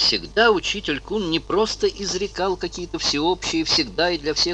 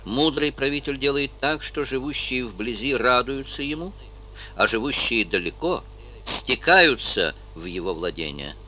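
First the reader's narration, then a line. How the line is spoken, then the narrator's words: Plain. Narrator (Russian): ответил Конфуций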